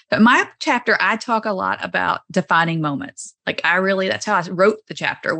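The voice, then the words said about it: Southern US accent. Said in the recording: “my Southern accent does not belong in central Nebraska”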